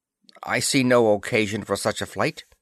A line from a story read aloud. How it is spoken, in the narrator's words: said curtly